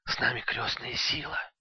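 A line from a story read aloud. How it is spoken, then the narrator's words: Whispered. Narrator (Russian): шепнул Илья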